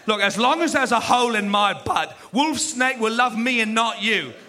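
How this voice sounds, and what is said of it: Exaggerated British accent. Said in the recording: “some British guy in here singing ... His accent was insane.”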